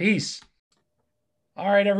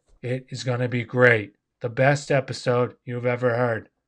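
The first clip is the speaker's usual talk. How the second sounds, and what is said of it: Bad Donald Trump impression. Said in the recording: “Bad Trump accent.”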